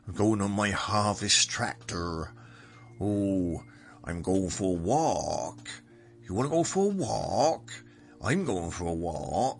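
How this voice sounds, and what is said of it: Put-on regional rural accent. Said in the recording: “It's an accent. It's a real, like, tractor. ... Which is very different from my accent. And I'm a southerner.”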